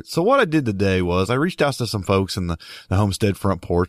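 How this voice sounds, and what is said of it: Sick, congested, stuffed-up voice. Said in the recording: “super, super sick for like a week, coughing really bad, really stuffed up head. And as you can hear in my voice today, I'm still not over it.”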